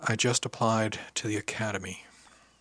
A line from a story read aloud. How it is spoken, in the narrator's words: I said very softly